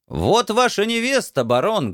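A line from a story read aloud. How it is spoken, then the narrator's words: Loud announcement. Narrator (Russian): громко объявил я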